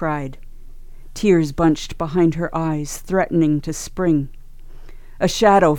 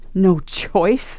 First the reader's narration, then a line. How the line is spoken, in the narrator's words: Nia laughed bitterly